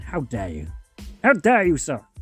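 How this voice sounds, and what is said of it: Alan Rickman impression. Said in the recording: “I can do an Alan Rickman impression. ... And now do your Alan Rickman impression.”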